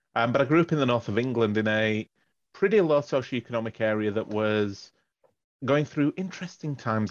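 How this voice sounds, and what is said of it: Non-Australian, Northern English accent. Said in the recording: “I'm clearly not originally from Australia. You can probably pick that by the accent.”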